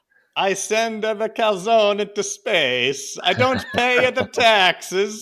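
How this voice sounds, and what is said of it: Put-on Italian accent. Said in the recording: “And the accent was in the text. So ... doing that is not wrong at all... Everyone knows that is Italian.”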